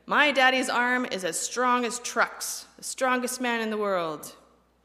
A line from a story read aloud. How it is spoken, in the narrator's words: I would roar to the neighborhood